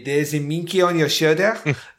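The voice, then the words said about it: Mock French Clouseau accent. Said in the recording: “walking around like a fucking Peter Sellers Clouseau ... horrible fucking Frenchy accent”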